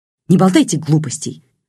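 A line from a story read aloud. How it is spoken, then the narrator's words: Sharp interruption. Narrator (Russian): резко оборвала его Черникова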